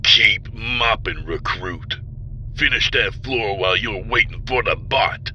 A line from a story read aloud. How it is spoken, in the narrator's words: Vardle growled